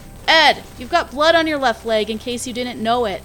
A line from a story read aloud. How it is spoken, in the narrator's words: Wheeler yelled to Ramsay